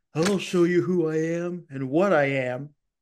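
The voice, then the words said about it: A bad celebrity impression. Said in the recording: “That's the worst impression I ever heard. ... That's the worst impression ever. ... That was my Nicolas Cage impression.”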